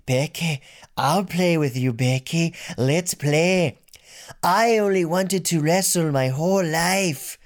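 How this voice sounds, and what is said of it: Impression of Nikki Cross. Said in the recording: “I was going to do an impression of Nikki Cross ... That sounded more like Rey Mysterio.”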